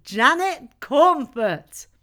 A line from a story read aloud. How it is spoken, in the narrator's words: We all laughed, and shouted